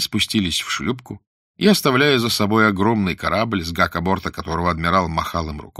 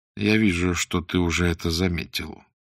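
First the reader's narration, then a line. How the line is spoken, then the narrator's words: Quiet. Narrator (Russian): тихо сказал Блат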